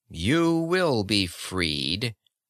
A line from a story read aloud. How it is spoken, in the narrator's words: the spokesman said coldly